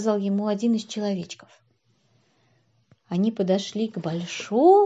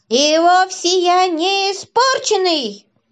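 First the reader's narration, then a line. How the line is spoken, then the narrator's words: Shouting toy. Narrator (Russian): закричал плюш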